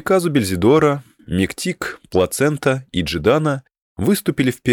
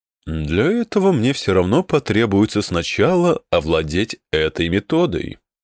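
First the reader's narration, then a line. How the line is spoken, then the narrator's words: Calm. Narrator (Russian): спокойно произнес Мидриен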